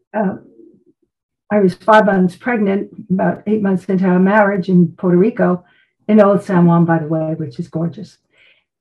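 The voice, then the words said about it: Brooklyn accent with attitude. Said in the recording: “I'm from Brooklyn originally. And you can probably hear the attitude at times. ... I hear the accent. I do hear the accent. ... both attitude and accent.”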